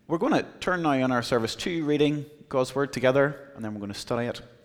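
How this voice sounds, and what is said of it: Irish accent. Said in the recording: “I am here from Ireland ... my accent would woo you, and it would be lovely”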